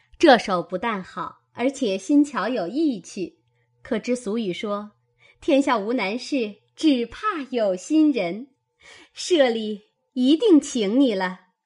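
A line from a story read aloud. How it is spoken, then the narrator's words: Group laughing. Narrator (Chinese): 众人笑道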